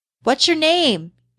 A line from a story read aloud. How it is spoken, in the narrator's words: shouted above the music